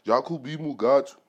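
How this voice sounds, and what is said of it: Put-on African accent. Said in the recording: “with an African accent.”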